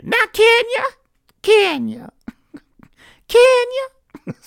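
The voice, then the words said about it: Impression of NeNe Leakes. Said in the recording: “my impression of NeNe Leakes anytime she said, on Real Housewives of Atlanta, anytime she was talking to Kenya”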